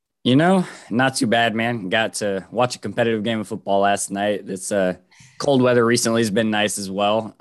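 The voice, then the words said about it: Slightly congested, off-sounding voice. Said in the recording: “it's really got my allergies flaring up on me... my voice sounds a little off at times”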